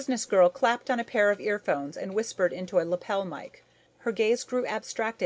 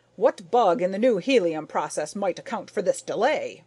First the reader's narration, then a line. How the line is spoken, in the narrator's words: Gryce barked